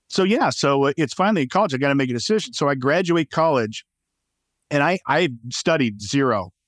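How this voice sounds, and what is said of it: Cracky, slightly congested voice. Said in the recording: “my voice is a little cracky. I'm coming over this sinus stuff”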